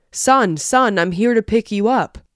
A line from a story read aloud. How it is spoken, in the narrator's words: I heard a voice on the other side of the park yelling